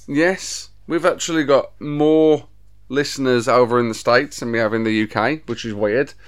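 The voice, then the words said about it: Black Country English accent. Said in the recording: “mine and ... accent ... The black country accent ... accent is not a true representation of Birmingham and Britain ... It's not standard Queen's English”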